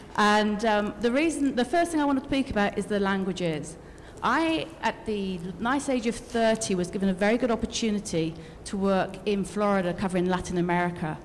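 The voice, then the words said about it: British accent. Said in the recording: “I'm actually British, as you can tell by my accent.”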